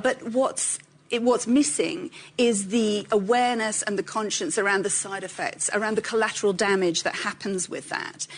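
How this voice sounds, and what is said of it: British accent. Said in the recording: “she's got that British accent”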